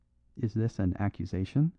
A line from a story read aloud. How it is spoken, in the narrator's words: asked Kalon, very quietly